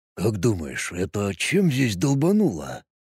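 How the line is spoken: Whisper. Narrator (Russian): прошептал Роберт

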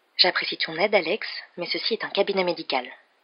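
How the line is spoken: Curt. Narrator (French): dit sèchement Missy

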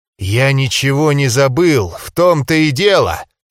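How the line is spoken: Hissed. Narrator (Russian): прошипел

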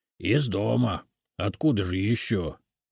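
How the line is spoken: Grumbling. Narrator (Russian): проворчал Семен

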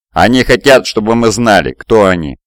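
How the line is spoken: Plain. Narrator (Russian): сказал Фидий

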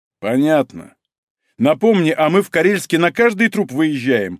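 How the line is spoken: Angry bark. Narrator (Russian): зло гаркнул Малинин

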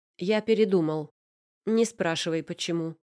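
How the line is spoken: Decisive, unenthusiastic, over phone. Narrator (Russian): сказал он в трубку не особенно радостным, но решительным тоном

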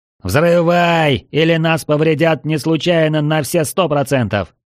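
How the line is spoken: Shout. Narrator (Russian): прокричал я

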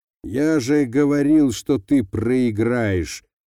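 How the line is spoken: Snorting. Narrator (Russian): фыркнул Лаптев

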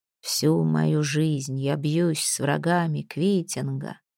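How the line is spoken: Distracted mumble. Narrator (Russian): пробормотал Бергвит, с трудом поддерживая рассеянную мысль

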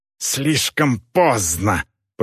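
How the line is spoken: Hissed. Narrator (Russian): прошипел Гудвар

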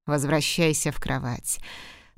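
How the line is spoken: Dry command. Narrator (Russian): сухо приказал он

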